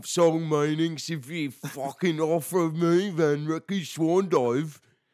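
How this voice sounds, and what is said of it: Bad put-on Australian accent. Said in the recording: “that's my terrible uh, Australian accent”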